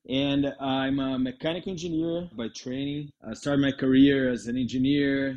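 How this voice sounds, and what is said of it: Brazilian accent in English. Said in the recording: “I'm from Brazil. That's why my accent.”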